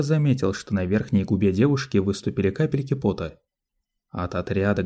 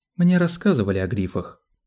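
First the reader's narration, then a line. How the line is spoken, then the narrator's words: Cold rebuke. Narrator (Russian): холодно осадила его Сиона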